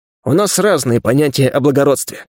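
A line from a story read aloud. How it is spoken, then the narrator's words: Dry snort. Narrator (Russian): хмыкнул я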